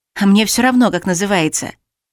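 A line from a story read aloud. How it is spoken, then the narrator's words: Snorted. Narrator (Russian): фыркнула я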